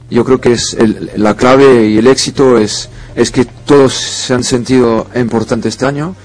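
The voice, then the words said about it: French accent speaking Spanish. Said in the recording (Spanish): “con ese acento francés que le caracteriza”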